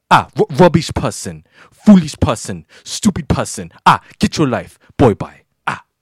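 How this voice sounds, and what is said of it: Put-on Nigerian accent. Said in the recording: “You make me bring my Nigerian accent for this one ... I had to get my Nigerian accent out for this one”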